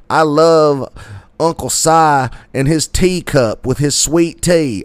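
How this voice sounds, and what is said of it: Exaggerated Southern redneck accent. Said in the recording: “I'm, like, accentuating my redneck accent... you've already got it. You don't have to lean into it.”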